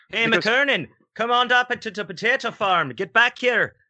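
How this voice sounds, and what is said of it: Put-on Irish accent. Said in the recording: “I studied dialect to be in Dancing at Lunacy and have an Irish accent.”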